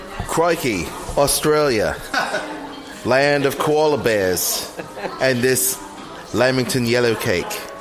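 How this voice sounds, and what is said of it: Bad put-on Australian accent. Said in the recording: “That was the worst accent I've ever done... you just can't do accents.”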